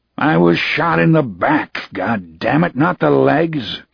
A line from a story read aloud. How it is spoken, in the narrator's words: Cannon rumbled